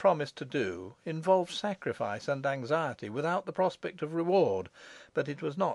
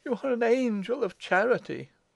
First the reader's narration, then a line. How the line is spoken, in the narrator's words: cried Madame Foucault